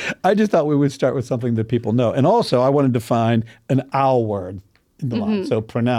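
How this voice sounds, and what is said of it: Usual voice. Nothing is said of it.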